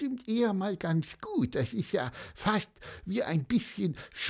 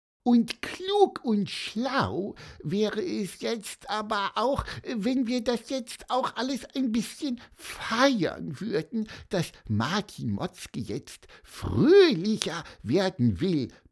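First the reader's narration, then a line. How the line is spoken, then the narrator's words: Squeaky voice. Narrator (German): piepste Pieper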